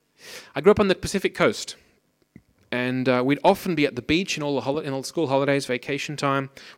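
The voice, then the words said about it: Strong Australian accent. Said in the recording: “I grew up in Australia, as you might be able to hear from my outrageous accent.”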